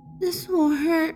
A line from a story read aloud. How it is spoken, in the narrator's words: he said softly, tears forming on the edges of his eyes